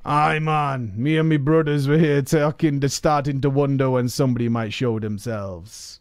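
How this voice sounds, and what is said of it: Jamaican-style troll character voice. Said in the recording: “Is that a racist Jamaican accent? ... it's a troll guy.”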